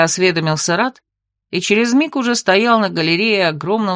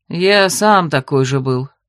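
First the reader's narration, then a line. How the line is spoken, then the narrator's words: Sighing. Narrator (Russian): вздохнул дракон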